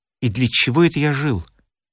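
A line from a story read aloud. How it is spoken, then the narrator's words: Muttering. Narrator (Russian): бормотал Борис Иванович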